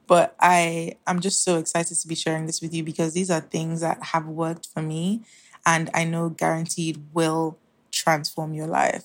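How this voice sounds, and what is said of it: Sore, strained voice. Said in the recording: “My voice is literally going sore.”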